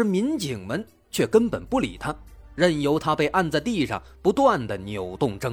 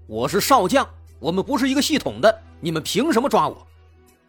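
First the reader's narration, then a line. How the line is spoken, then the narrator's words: Shocked shouting. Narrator (Chinese): 董大为非常错愕，他嘴里大喊说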